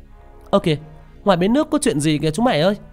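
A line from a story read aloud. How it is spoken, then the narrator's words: Sudden child's shout. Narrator (Vietnamese): đột nhiên một đứa hét lên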